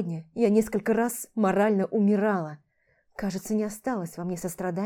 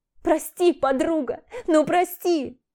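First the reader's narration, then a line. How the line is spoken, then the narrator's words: Loud sobbing plea. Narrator (Russian): громко всхлипывала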